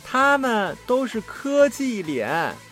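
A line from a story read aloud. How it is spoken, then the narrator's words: Loud. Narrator (Chinese): 红发女孩大声说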